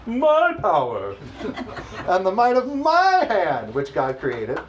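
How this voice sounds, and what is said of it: Haughty, self-important voice. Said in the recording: “in my haughty voice.”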